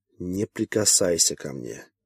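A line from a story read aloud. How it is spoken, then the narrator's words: Calm, menacing. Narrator (Russian): произнесла спокойно и страшно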